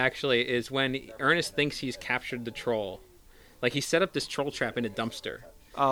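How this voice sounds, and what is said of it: Usual voice. Nothing is said of it.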